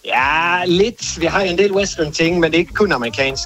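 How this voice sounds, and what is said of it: Swedish accent speaking Danish. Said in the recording (Danish): “har du en lille dialekt? Eller en accent hedder? ... Ja, jeg er fra Sverige.”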